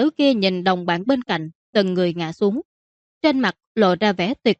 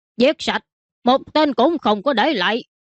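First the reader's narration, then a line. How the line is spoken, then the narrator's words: Loud shout. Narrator (Vietnamese): Hắn lớn tiếng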